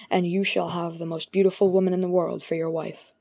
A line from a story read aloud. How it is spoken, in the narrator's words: she murmured